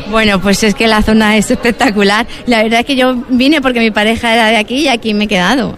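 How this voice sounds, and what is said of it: Spanish accent from Madrid. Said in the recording (Spanish): “Por tu acento, llevas mucho tiempo en Huelva, pero vienes de... De Madrid.”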